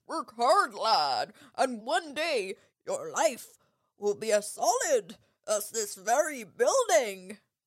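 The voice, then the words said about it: Effortful put-on accent for headmaster. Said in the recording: “10 out of 10 for effort on the accent.”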